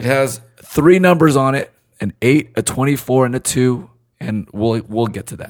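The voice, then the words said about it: Deep, hoarse lost voice. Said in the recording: “your big voice ... I lost my voice”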